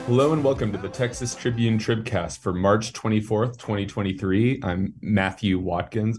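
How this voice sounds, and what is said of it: Raspy, recovering lost voice. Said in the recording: “raspy voiced ... lost my voice a couple days ago, but it's coming back slowly”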